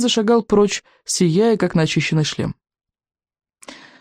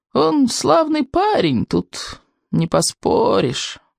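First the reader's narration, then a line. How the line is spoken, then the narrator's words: Creaky old man. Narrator (Russian): проскрипел старый сморчок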